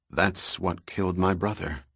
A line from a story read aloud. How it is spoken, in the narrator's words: Trevor said solemnly